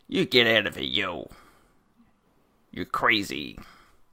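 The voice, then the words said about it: Put-on New York American accent. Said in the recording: “I'm doing my American accent again. It's not American. ... It's really accurate ... Are you living under a bridge in New York City? That's what you sound like.”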